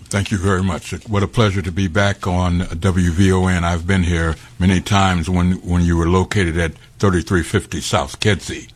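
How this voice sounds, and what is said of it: Smooth radio announcer voice. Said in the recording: “you definitely got a radio voice.”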